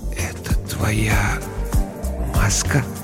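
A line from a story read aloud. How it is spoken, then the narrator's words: Whisper. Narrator (Russian): прошептал я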